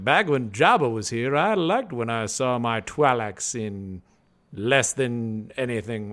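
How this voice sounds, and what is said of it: Matt Berry impression. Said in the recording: “a Matt Berry impression ... I can't do it”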